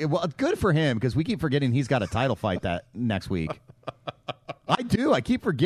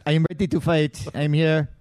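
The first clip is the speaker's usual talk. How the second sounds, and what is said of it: French-accented impression of GSP. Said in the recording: “he's not that French. ... He's French enough.”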